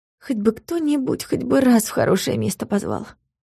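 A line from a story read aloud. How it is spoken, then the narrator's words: Sleepy mumble. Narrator (Russian): пробормотала Юля сонно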